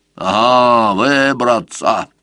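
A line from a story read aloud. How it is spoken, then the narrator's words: Grumbling old man. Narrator (Russian): пробурчал дед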